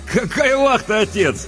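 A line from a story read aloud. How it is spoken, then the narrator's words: Cheerful interruption. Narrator (Russian): весело перебил его Леонид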